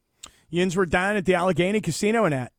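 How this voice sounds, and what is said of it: Pittsburgh accent. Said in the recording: “quick draw over here with your Pittsburgh accent. That was fantastic.”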